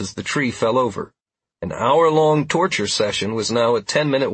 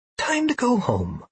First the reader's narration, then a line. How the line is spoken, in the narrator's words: I declared in a whisper